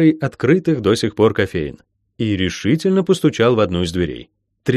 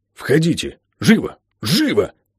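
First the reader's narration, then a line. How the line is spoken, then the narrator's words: Urgent hiss. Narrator (Russian): прошипел означенный мистер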